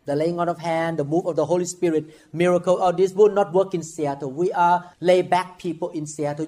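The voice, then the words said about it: Heavy non-native English accent. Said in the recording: “you speak with accent ... 你的英文口音很重啊”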